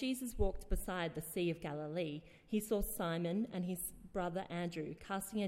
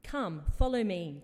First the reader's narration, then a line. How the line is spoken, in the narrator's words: Jesus said